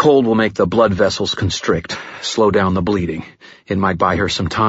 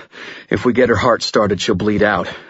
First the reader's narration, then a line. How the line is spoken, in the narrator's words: I panted